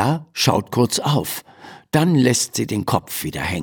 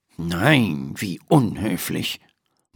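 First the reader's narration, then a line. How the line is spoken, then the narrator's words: Murmuring. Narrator (German): murmelt Dr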